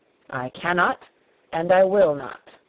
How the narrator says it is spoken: he replied solemnly

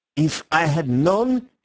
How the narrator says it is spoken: he sputtered

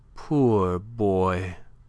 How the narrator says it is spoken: she said tenderly

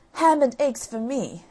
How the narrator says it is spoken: exclaimed Jack

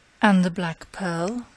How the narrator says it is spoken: he murmured

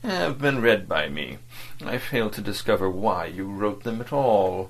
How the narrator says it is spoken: State Councillor Wormut began in his gentle and dispassionate tone

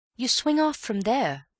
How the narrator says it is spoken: said Bill

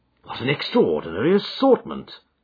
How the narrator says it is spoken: I exclaimed

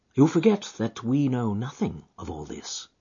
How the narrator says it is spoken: said Holmes quietly

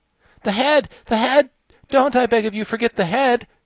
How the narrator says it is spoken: cried the Wogglebug excitedly

